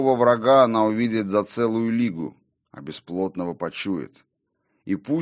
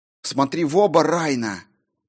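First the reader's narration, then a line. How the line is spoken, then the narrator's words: Hissing to herself. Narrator (Russian): Прошипела она сама себе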